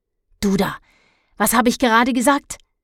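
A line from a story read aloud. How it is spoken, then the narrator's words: Snapping. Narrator (German): schnauzte er Dennis an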